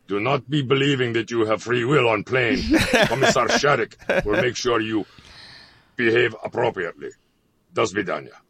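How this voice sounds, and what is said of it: Put-on Russian accent. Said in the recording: “good Russian accent”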